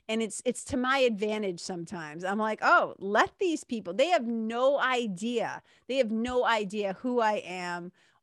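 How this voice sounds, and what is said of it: Speaker's own regional accent. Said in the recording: “people who think that I'm stupid because of my accent ... the way that I talk”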